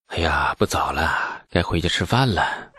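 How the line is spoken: Muttering. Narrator (Chinese): 李素喃喃地说

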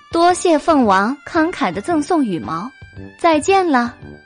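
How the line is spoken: Smiling. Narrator (Chinese): 白姬笑着

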